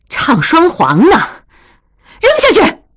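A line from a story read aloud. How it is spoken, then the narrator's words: Angry. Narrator (Chinese): 怒从中来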